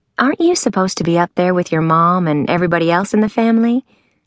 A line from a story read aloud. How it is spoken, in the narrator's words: Anna Jane asked